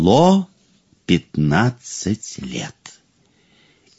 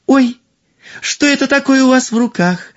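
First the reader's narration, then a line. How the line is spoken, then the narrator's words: Princess exclaiming. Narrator (Russian): воскликнула принцесса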